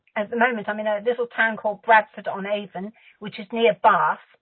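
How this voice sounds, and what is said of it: Southwest English accent. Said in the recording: “you also have an accent. Well, at least it's a different way of speaking than here in the States ... I'm from the southwest of England.”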